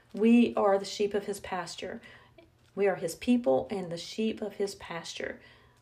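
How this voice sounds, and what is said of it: Strong Southern US accent. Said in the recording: “I probably have a really southern accent today”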